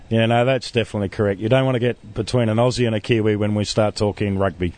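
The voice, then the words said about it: New Zealand accent. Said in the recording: “as you can tell from his accent, it's not Australian, it's New Zealand”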